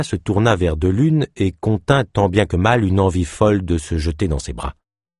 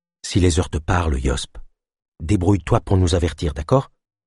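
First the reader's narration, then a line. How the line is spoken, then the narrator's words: Murmured. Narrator (French): murmura Delune à Yosp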